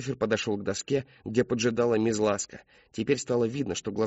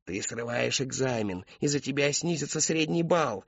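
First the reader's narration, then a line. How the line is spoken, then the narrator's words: Hissing classmates. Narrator (Russian): Одноклассники ряд за рядом шипели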